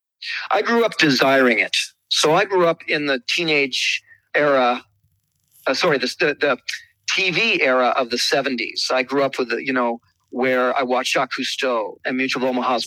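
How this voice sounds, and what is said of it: Slight Canadian accent. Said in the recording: “a little bit of an accent in your voice ... it's Canadian ... I'm from Ontario”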